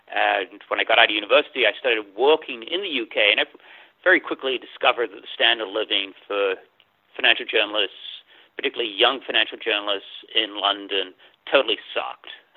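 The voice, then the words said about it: English accent. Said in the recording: “as you can probably tell from the funny accent ... I wasn't born in the U.S. I was born in England”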